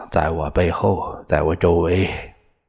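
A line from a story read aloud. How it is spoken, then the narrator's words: Low voice. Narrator (Chinese): 托了自己低声说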